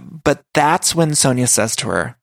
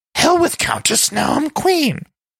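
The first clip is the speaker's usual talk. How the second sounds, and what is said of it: Bad impression of Luann. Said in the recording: “Terrible Luann impression.”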